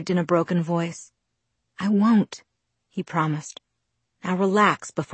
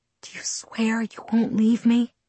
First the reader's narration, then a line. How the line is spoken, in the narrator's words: I whispered